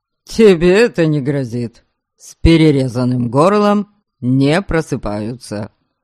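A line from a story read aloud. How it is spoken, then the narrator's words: Scoffing grunt. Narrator (Russian): хмыкнул Эйнар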